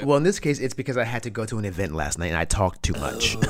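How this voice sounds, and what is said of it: Unusually deep, low voice. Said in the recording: “Little lower bells ... You're a deep voice today ... sometimes you have a lower voice”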